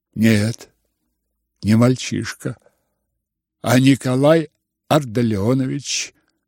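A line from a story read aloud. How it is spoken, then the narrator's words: Firm, fairly quiet reply. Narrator (Russian): Твердо, хотя и довольно тихо, ответил князь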